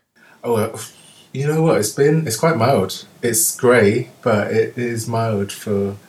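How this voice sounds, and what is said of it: London accent. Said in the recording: “that lovely London accent coming through”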